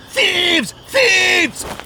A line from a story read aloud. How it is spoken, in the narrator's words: he shrieked into the darkness